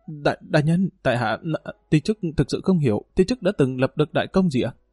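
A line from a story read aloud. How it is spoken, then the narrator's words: Stammering. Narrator (Vietnamese): Dương Lăng lắp bắp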